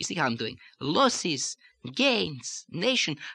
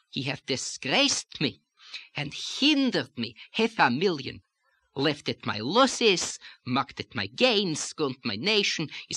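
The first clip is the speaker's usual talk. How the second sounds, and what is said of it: Light lilting put-on accent. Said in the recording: “we can do a little of the lilt without getting stereotypic about it ... I'm using that lilt here”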